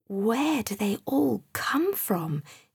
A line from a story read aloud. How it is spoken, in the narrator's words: he whispered